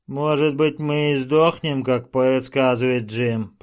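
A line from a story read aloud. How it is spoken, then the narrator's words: Grumble. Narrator (Russian): проворчал Джо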